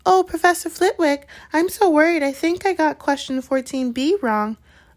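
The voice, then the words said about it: High-pitched mocking imitation voice. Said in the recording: “he put on a high voice”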